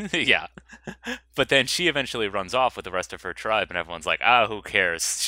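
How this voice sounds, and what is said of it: Usual voice. Nothing is said of it.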